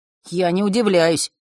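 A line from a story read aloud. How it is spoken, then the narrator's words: Wry snort. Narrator (Russian): хмыкнул Ник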